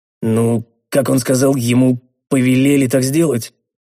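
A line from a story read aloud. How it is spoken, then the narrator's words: Vague snort. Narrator (Russian): неопределенно хмыкнул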